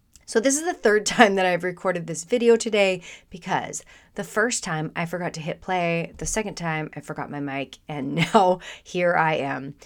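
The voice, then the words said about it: Congested voice from a cold. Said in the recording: “You can probably hear it in my voice. I do have a cold”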